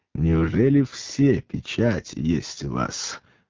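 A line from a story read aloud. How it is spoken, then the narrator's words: Laughing question. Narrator (Russian): рассмеявшись, спросил Пилат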